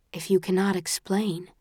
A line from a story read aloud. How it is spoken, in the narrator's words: says softly